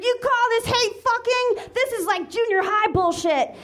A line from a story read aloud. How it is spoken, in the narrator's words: Elizabeth screamed